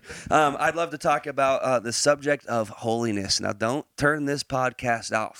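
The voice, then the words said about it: Put-on Texas accent. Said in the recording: “now I got an accent ... I don't know why I'm talking in an accent again ... I think it's because I mentioned Texas.”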